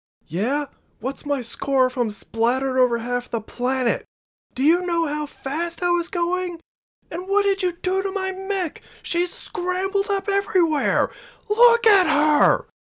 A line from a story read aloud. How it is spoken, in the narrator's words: Marie screamed